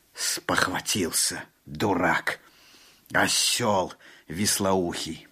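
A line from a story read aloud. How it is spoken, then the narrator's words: Muttered through gritted teeth. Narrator (Russian): проговорил Алан-Би сквозь зубы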